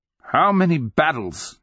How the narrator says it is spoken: he cried

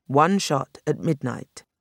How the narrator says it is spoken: Bowles repeated firmly

